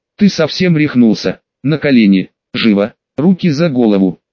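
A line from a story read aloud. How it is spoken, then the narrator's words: Wolf's growled command. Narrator (Russian): прорычал волк команду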